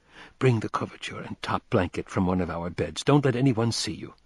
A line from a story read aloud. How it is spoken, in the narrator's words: he whispered